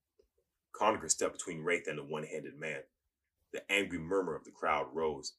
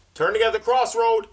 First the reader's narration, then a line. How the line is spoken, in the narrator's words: Cobb shouted from his perch on the wall beside the gate